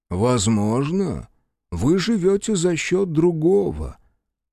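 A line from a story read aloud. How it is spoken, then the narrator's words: Sad reply. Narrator (Russian): печально ответил Морган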